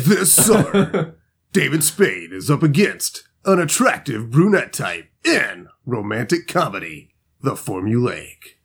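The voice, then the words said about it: Dramatic movie trailer announcer voice. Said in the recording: “That's my movie trailer voice... that 80s, 90s voice”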